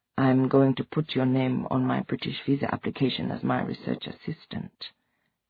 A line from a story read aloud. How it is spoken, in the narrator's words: she said quietly